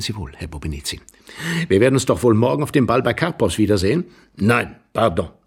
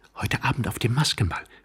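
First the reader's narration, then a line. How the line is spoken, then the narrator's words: Quick whisper. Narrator (German): flüsterte sie schnell Tworogow zu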